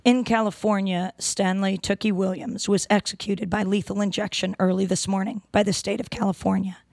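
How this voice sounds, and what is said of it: Hoarse voice from laryngitis. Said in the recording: “excuse my voice. I have laryngitis.”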